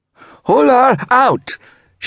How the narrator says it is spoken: shouted

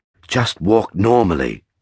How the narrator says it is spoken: my companion instructed in a taut whisper

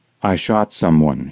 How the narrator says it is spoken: she said quietly

